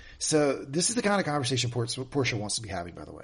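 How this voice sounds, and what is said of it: Usual voice. Nothing is said of it.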